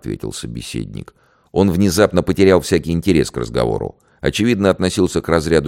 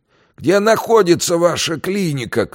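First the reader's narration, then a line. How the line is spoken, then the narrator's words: Disabled man's shout. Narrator (Russian): крикнул инвалид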